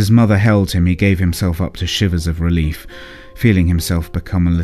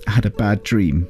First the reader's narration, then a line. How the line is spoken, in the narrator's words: sobbed